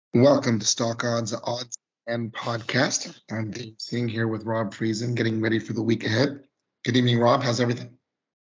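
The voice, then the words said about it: Slightly lost, strained voice. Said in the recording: “your voice went out on you again a little bit ... Seasonal allergies and colds ... give your voice a break”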